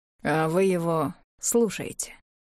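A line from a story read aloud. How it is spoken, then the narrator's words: Quiet voice. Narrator (Russian): Тихо сказали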